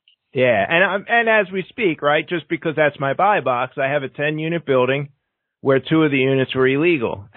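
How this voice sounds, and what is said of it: Philadelphia accent. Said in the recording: “my Philadelphia draw and the accent.”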